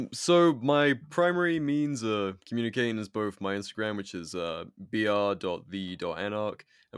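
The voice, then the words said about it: British accent. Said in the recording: “you might detect from the accent, I'm a British anarchist.”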